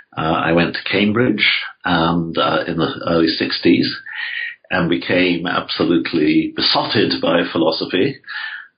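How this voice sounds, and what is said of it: English accent. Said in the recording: “I grew up in England, as you can no doubt tell from my voice.”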